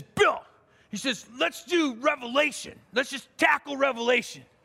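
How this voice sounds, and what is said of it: Imitates another person's voice. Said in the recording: “that's my imitation of Jim. That's the way he sounds.”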